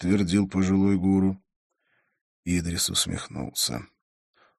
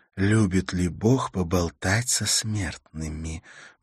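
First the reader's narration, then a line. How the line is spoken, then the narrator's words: Quick encouraging whisper. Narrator (Russian): быстро прошептала Карла, ободряюще улыбнувшись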